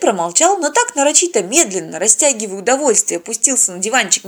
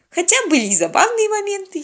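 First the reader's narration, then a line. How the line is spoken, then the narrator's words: Giggle. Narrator (Russian): хихикнула Полина, вспомнив про шоколадный батончик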